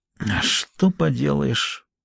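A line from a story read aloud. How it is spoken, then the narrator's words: Muttered to himself. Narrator (Russian): пробормотал он, словно самому себе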